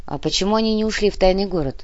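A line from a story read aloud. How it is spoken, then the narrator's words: Plain. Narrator (Russian): спросил Кортес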